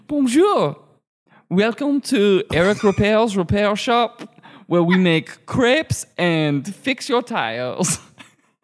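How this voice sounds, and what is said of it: Comic French-style character voice. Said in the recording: “doing the voice ... Sounds like you're the Michelin man choking on a croissant”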